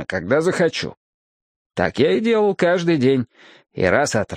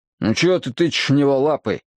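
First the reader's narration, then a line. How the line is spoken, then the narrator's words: Irritated question. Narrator (Russian): раздраженно спросил я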